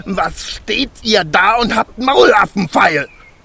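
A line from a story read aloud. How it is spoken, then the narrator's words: Furious shout. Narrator (German): schrie der Zwerg und sein aschgraues Gesicht war zinnoberrot vor Zorn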